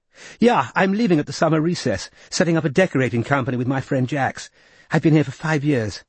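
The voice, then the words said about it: Confident upper-class English accent. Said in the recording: “talking all the while in a confident upper-class accent, leaving Robin impressed by her lung power”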